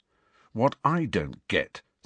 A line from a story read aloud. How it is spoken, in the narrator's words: said Harry in a shaking voice